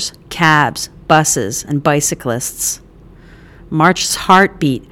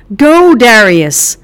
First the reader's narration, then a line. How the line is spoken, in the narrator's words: March shouted